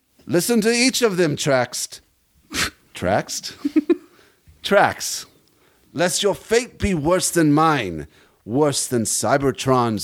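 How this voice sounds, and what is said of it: Character voice with shifting accent. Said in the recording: “Why does his accent keep changing? ... He's from everywhere.”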